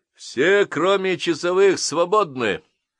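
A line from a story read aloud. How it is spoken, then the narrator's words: Loud announcement. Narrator (Russian): громко повестил я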